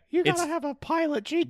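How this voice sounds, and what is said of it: Breathless, high-pitched imitated voice. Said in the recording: “Pop a quick Tom Noonan impression ... Breathlessly and kind of high ... Yeah, that's way better.”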